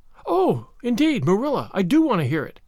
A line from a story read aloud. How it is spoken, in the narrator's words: cried Anne contritely